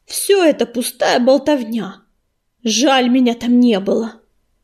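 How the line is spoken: Furious growl. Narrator (Russian): прорычал Белохвост

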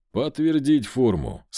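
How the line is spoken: Said with a snort. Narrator (Russian): сказал я, хмыкнув

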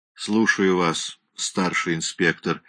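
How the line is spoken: Said wearily. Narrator (Russian): устало сказал Гофман

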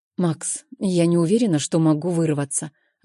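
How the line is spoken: Evasive. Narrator (Russian): отвечаю уклончиво

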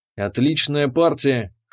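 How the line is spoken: Smirking voice in head. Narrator (Russian): хмыкнул Вазар в моей голове

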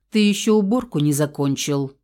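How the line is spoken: Stern, menacing. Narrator (Russian): грозно проговорила я

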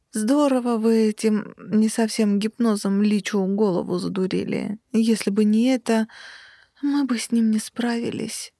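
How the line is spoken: Sleepy mumble. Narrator (Russian): сонно пробормотала

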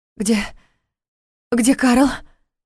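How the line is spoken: Breathless. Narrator (Russian): Наконец выдохнула она

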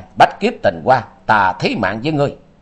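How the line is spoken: Furious roar. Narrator (Vietnamese): Quan Thiên Đạt giận dữ gầm vang

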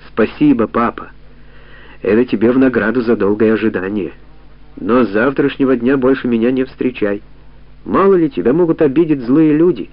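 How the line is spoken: Gentle coaxing father. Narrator (Russian): ласково уговаривал отец

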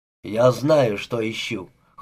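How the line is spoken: Cold remark. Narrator (Russian): холодно проронил Макрини

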